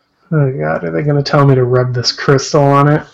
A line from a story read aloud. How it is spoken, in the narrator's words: I sigh